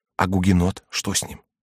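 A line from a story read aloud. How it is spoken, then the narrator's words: Whispered. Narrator (Russian): прибавила шепотом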